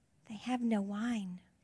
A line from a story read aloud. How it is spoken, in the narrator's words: she whispers to her son